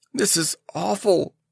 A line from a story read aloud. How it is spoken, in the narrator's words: she moaned